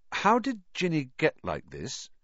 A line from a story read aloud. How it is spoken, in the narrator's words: he asked slowly